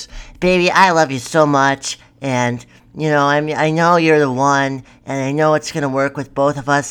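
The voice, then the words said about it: Childlike put-on kid voice. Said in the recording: “I'm going to do my kid voice.”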